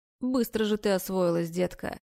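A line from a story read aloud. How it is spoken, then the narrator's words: Mocking statement. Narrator (Russian): заявляет насмешливо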